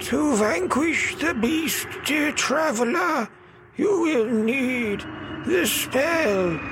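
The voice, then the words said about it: Spooky voice. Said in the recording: “spooky voice”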